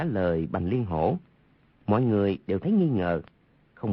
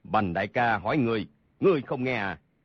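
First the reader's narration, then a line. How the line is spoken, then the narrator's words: Loud shout. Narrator (Vietnamese): Hầu Thông Hải lớn tiếng quát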